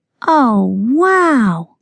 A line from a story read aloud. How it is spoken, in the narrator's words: exclaimed Dani